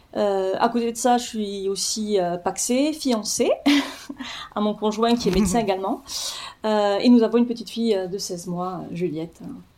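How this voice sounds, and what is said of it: Lilting southern French accent. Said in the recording (French): “petit accent chantant”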